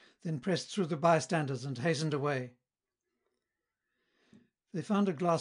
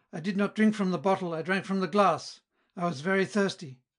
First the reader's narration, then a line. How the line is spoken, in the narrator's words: cried Felix